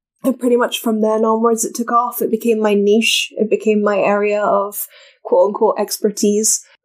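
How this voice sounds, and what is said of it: Speaks with a noticeable accent. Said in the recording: “Cool accent.”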